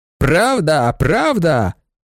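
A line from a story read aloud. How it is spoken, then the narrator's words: Shouting. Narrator (Ukrainian): закричав Старський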